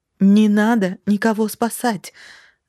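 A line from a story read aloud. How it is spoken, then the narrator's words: Exclaiming. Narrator (Russian): воскликнула я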